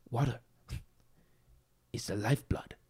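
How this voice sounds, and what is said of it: Poor imitation with put-on accent. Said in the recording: “I'm probably doing an offensive accent... That's a horrible Bruce Lee”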